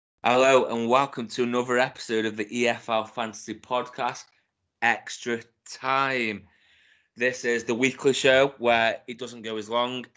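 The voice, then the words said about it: Rough, congested voice. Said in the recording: “excuse my voice. I know it's bad normally, but I've got a bit of a cold”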